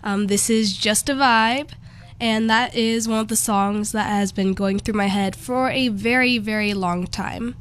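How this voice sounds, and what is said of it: Voice sounds off, unwell. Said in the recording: “I'm a little sick today, so that's why my voice sounds off.”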